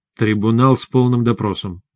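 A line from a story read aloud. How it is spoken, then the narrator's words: Grim statement. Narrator (Russian): мрачно сказал я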